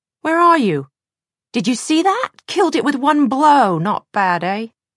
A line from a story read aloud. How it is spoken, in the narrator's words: Will's shout